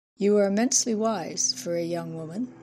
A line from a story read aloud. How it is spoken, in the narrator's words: sighed in despair